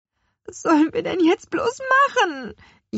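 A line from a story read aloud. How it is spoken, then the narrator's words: Wailing lament. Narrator (German): jammerte Lea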